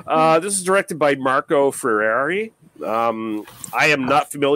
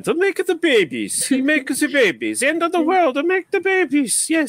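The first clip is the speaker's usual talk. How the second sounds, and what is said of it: Slight put-on Italian accent. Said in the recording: “Do it in a slightly Italian accent.”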